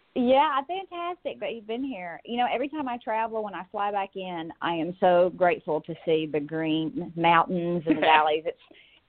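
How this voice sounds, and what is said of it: Tennessee accent. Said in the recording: “I'm in Chattanooga, so that explains the accent”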